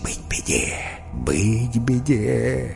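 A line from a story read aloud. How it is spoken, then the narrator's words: Group whispering. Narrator (Russian): Фламинго зашептались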